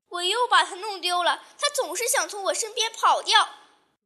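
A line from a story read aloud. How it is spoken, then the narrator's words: Sobbing loudly. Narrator (Chinese): 他就大哭起来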